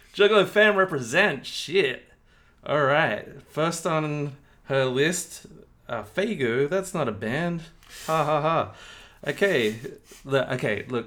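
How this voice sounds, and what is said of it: Attempted French accent. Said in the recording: “French accent ... Must be a regional dialect ... Somewhere around Brittany”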